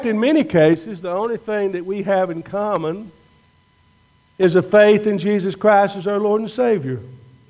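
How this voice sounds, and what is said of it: Deep Southern US accent. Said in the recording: “You don't have that Deep South accent that y'all still hear in my voice”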